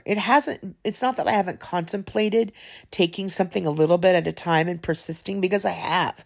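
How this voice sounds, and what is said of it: Emotional, choked-up voice. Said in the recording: “I'm getting emotional telling you guys this”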